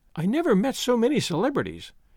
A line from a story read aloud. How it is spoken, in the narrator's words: Daisy exclaimed